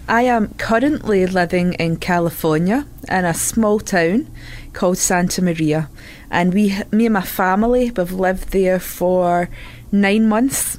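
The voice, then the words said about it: Scottish accent. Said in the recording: “We moved over from Scotland. As you can tell, that's where the accent's from.”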